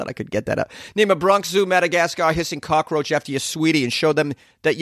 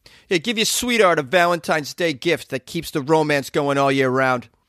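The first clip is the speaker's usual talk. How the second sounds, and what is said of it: Put-on New York Bronx accent. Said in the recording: “Let me do it with a New York accent, uh, Bronx accent here.”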